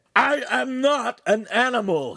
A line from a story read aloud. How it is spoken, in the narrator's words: he screamed